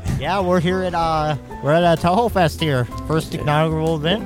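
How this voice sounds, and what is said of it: Wisconsin accent. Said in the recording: “What's with the accent? ... I guess that's just my Wisconsin accent.”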